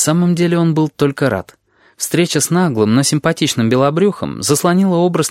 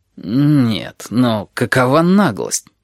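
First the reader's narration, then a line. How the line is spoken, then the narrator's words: Muttering. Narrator (Russian): пробормотал Ральф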